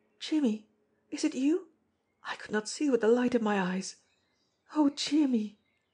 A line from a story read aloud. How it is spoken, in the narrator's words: Her voice faltered